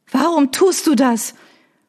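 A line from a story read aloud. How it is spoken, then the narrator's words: Pleading undertone. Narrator (German): Banner ... des flehenden Untertons ... in ihre Stimme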